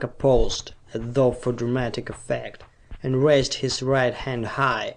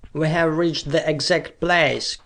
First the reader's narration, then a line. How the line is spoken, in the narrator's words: cried Sarka